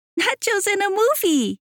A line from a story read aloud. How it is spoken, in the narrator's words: she laughed